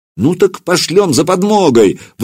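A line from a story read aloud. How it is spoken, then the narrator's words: Exclamation. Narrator (Russian): воскликнул Путята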